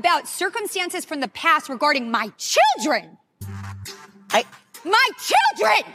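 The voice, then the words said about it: Screaming, raised angry voice. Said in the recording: “keep screaming”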